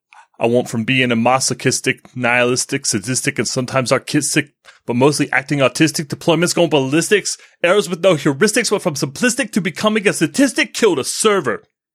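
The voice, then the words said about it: Imitates another person's voice. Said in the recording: “in my best Jay-Z impersonation here, I'm going to try and read it”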